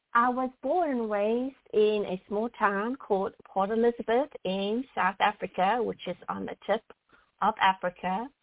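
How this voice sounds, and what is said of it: Foreign-accented English. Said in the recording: “you have a very beautiful accent”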